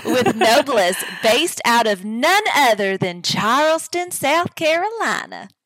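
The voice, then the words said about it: Put-on Southern accent. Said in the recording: “Oh, I like the accent. ... gotta throw a little Southern hospitality in there”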